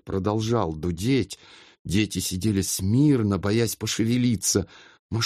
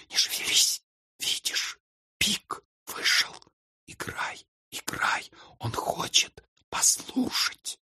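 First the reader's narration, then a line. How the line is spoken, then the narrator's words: Whisper. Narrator (Russian): Она прошептала ему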